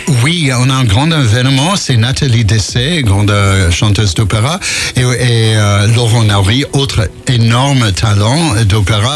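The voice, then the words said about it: American accent speaking French. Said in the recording (French): “on entend votre accent, parce que vous êtes américain ... j'arrive pas à perdre l'accent”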